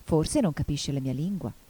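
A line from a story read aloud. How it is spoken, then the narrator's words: Plain. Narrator (Italian): disse Alice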